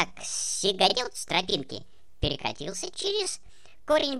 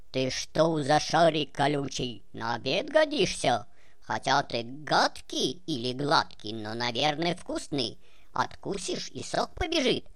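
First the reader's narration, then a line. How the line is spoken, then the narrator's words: Gruff voice. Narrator (Russian): говорит грубым голосом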